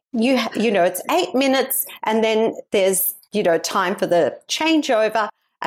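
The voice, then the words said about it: Poor put-on American accent. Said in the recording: “This is my poor American accent.”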